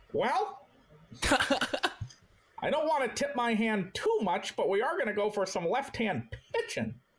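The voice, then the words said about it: Old-fashioned stockbroker-like cartoonish voice. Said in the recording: “doing my Dave Dombrowski impression ... that's like a 1950s stockbroker. ... Like a looney tune.”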